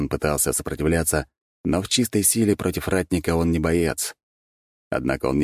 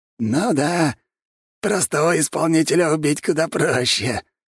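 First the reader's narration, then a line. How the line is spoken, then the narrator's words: Hoarse laugh. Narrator (Russian): хрипло засмеялся Сапсан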